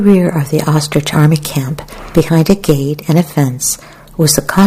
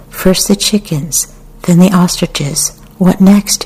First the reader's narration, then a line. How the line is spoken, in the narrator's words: she said